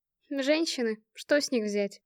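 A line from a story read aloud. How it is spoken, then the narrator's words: Sighing. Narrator (Russian): вздохнула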